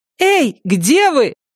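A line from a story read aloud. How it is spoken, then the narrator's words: Shouting. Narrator (Russian): кричала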